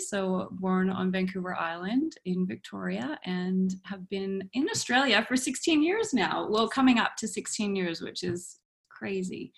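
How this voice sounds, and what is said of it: Non-local accent. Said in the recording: “as we can hear from the accent, it doesn't sound like you're from around here.”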